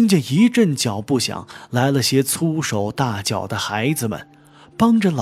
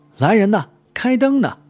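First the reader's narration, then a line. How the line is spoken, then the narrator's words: Shouting. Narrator (Chinese): 四奶奶叫喊道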